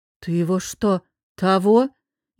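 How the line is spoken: Stammered, quietly asking. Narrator (Russian): пролепетала она, тихо поинтересовалась

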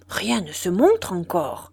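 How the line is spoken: Murmured. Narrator (French): murmurait-il

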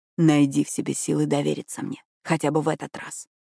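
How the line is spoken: Whisper. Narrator (Russian): прошептал он

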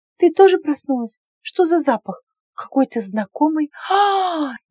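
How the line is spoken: Frightened gasp. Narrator (Russian): Испуганно выдохнула Мирьям, обнаружив спящего незнакомца

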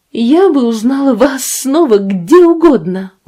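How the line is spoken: Exclaimed. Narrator (Russian): воскликнула она

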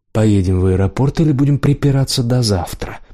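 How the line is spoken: Grumbling. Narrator (Russian): проворчал Демьян

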